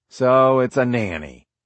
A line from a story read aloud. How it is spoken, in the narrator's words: said Schwal with a sigh